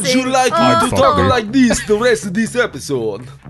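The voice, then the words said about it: Old Jamaican-sounding put-on voice. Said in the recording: “You sound like an old Jamaican ... Sound like Mr. Magoo, like drunk at a Halloween party.”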